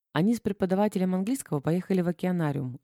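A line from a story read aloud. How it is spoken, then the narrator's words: Plain. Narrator (Russian): ответила Женя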